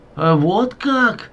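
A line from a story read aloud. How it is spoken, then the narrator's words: Woman exclaiming. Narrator (Russian): воскликнула соседка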